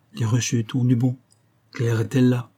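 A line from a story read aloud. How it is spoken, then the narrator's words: Gentle, soft. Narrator (French): dit-elle doucement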